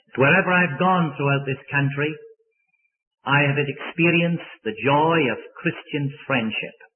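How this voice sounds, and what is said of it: Foreign accent. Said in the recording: “I've got a foreign accent”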